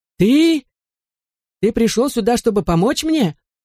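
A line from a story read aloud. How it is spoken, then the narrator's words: Full-throated straining yell. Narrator (Russian): Набрав в легкие побольше воздуха, мистер Молтри заорал, что было силой, надсаживая горло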